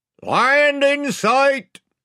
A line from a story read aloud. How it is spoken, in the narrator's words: shouted the man in the bows